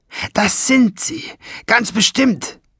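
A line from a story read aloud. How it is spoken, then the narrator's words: Groaning. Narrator (German): stöhnte Schwefelfell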